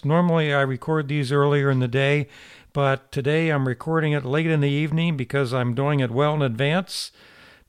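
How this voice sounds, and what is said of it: Tired, slightly hoarse voice. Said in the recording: “I sound a little tired and maybe a little hoarse.”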